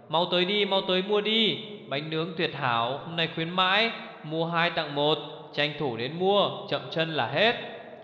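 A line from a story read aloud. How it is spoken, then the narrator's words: Loud vendor's call. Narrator (Vietnamese): Tuyết lớn tiếng gọi mời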